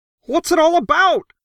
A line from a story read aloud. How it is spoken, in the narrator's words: Crockett howled